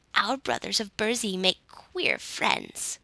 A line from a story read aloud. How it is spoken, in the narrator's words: grumbled an ancient nook